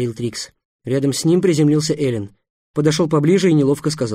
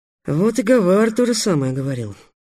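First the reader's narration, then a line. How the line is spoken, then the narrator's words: Sighing. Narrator (Russian): вздохнул Трикс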